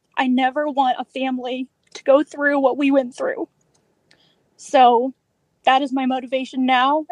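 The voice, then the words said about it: Choked up, tearful voice. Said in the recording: “sorry to get choked up ... so I don't have tears in my voice”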